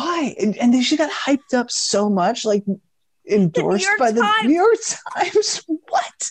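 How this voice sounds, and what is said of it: Usual voice. Nothing is said of it.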